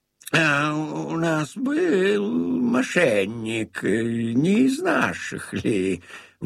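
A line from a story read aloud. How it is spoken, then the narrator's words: Grumbling. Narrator (Russian): он ворчал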